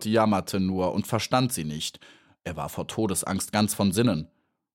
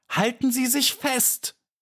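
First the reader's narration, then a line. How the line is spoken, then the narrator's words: Shouting. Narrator (German): schrie Maja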